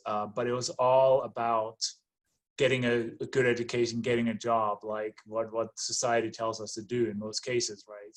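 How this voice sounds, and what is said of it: Danish accent. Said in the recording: “as you can hear maybe from my accent and my name, I was born and raised in Denmark”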